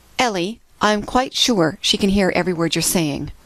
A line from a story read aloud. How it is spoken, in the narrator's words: The woman named Marion said in a normal tone